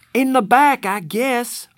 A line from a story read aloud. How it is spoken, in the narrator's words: I hollered